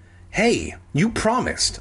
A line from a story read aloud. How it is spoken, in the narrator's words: I exclaimed